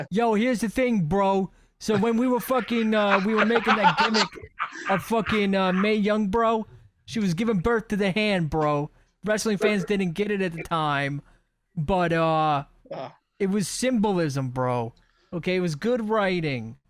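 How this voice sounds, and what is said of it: Imitates another person's voice. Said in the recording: “can do a Vince Russo impression ... I'm the only person who ever wants to do a Vince Russo impression”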